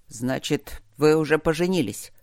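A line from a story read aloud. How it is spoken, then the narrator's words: Old leader's grumble. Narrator (Russian): пробурчал старый вожак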